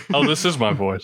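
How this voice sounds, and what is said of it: Regal-sounding character voice. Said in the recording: “doesn't do his own voice ... It's very regal sounding.”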